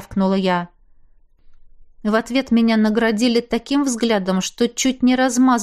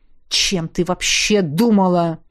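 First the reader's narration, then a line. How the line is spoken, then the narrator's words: Loud insulting growl. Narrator (Russian): Последнее прозвучало очень рычаще, очень громко и очень оскорбительно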